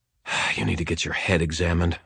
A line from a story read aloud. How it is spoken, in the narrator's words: I muttered to myself